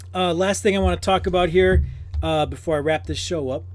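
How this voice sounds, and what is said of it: Strained, worn-out voice. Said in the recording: “my voice is going here... maybe I was yelling too much”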